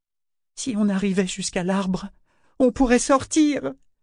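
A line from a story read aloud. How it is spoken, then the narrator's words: Exclamation. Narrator (French): s'écria-t-il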